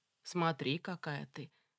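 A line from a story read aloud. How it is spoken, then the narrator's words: Hoarse, almost envious. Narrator (Russian): почти что с завистью хрипло сказал Виталий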